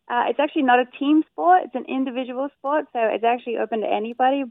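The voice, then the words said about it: Australian accent. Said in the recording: “that Australian accent”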